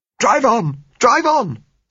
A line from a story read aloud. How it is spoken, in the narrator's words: said Gisella hysterically